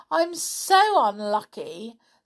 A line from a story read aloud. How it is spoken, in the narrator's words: sighed Beth